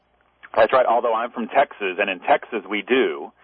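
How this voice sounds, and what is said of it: Usual voice. Nothing is said of it.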